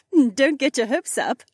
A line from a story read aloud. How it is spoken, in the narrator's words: Becca laughed